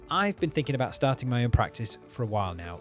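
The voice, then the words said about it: Northern English accent. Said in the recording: “Just my usual northern brogue”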